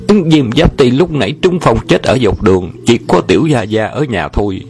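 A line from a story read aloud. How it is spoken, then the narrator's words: Frightened shouting in unison. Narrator (Vietnamese): Bọn sai dịch sợ hãi đồng thanh la lên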